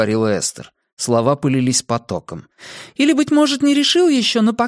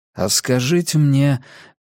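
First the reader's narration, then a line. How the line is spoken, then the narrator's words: Gentle suggestion. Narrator (Russian): мягко предложил собеседнице Калгари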